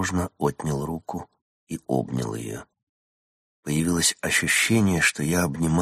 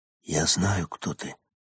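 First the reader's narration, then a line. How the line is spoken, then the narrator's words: Whisper. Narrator (Russian): прошептал я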